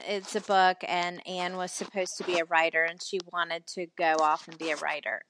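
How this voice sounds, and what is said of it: Southern American accent. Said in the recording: “I obviously am Southern. I know you can't tell from my accent”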